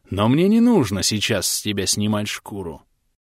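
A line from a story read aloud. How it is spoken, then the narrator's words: Gentle fatherly voice. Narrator (Russian): Неожиданно ласковым отеческим голосом добавил варяг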